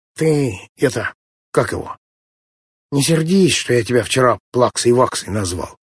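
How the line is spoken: Heavy sigh, sniffling. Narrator (Russian): тяжело вздохнул, посопел носом и сказал

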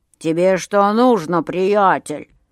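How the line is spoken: Grumbling, growing angry. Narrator (Russian): заворчал Миша и тоже начал сердиться

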